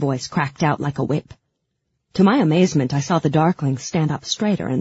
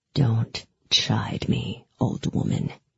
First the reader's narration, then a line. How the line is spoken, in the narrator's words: he said in a low, dangerous voice